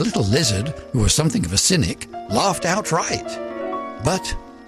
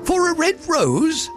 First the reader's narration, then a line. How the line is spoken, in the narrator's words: the flowers cried